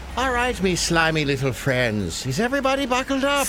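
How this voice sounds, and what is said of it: Irish accent. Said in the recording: “putting his Irish accent to work for a really silly bit”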